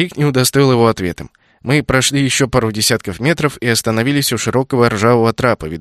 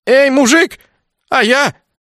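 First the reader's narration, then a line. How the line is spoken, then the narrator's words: Hoarse hopeless shout, young man. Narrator (Russian): Всхрипнув без особой надежды, крикнул вслед юнец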